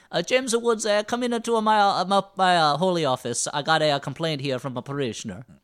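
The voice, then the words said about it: Comical put-on Italian accent. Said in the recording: “a comical Italian accent is the best one for a pope”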